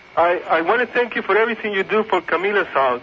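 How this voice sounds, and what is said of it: Phony put-on accent. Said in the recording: “You sound just like Diego. ... this phony accent”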